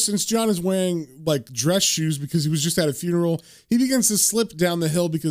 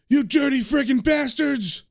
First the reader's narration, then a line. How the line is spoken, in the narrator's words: he yells